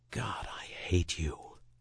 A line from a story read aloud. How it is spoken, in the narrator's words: smiled, and whispered